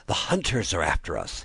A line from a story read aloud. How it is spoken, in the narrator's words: he panted